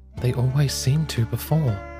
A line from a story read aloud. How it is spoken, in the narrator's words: Blake whispered